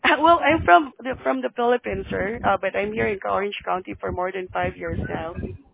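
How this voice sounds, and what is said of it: Filipino-accented English. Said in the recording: “You have an accent.”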